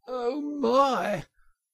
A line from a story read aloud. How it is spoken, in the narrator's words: gasped the poor Toad